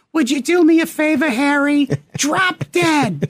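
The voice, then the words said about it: Raspy Queens Jewish accent. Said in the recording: “I can't do a Queens like raspy Jewish accent, but I'll try.”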